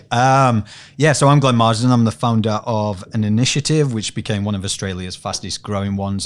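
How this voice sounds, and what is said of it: Yorkshire accent with Australian twang. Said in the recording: “I've got this Yorkshire accent mixed with Aussie twang”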